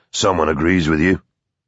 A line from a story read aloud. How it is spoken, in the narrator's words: he said dryly